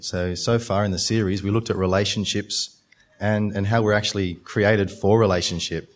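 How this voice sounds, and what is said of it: Slightly croaky voice. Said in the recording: “My voice is a little bit croaky as well”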